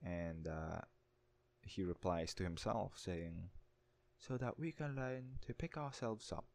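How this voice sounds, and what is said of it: Usual voice. Nothing is said of it.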